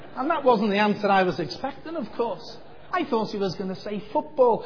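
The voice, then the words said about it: Liverpool accent. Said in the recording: “this isn't a Northern Ireland accent ... where do you think I'm from with an accent like this? And the little boy said, Liverpool. And I said, that's right.”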